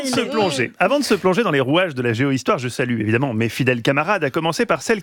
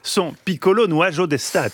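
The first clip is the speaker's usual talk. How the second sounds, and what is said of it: Put-on Italian-sounding accent. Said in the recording (French): “Il avait un meilleur accent.”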